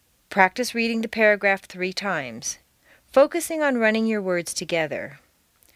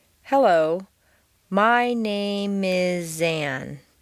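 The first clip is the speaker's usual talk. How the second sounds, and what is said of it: Exaggerated, drawn-out linked words. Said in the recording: “I'm going to exaggerate the linking of the words, drawing it out much longer than would be natural.”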